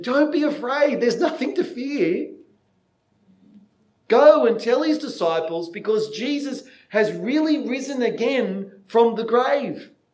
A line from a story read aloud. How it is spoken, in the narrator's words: yell out and say